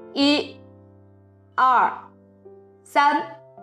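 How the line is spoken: Loud counting. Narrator (Chinese): 匹诺乔开始大声数

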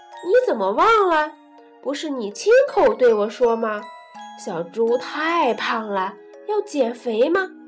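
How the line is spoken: Laughing. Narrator (Chinese): 鸭大婶笑着对猪妈妈说

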